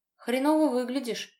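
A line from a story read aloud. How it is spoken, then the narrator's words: Man's wry grunt. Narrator (Russian): вместо приветствия хмыкнул мужчина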